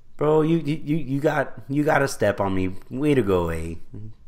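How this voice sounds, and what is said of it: Bad put-on Canadian accent. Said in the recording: “Worst Canadian... That was not good. I've never actually done a Canadian accent... That was really regrettable.”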